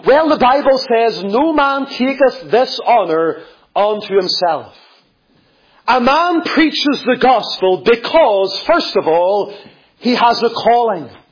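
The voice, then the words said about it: Northern Irish accent. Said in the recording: “You can maybe tell by my accent that I'm not from North Antrim ... I came from Lisburn”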